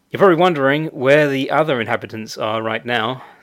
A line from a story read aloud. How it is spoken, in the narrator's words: said Becky